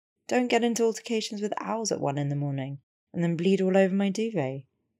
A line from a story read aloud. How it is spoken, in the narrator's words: Hermione said, laughing